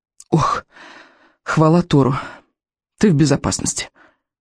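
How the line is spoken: Relieved exhale. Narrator (Russian): выдохнула камикадзе

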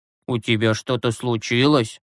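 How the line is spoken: Plain. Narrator (Russian): спросил Юрасик

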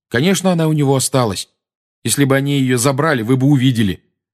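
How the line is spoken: Angry. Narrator (Russian): сердито сказал Гарри

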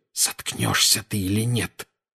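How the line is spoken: Hissing. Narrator (Russian): прошипел Гарри

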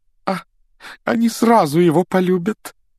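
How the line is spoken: Exclamation. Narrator (Russian): воскликнула тетя Петунья

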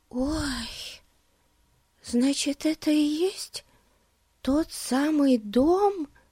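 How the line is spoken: Whisper. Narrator (Russian): прошептала Бетси

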